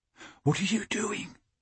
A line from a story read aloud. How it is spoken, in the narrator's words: Michael whispered